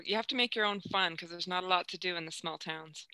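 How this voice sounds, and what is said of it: Canadian accent. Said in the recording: “You sound Canadian.”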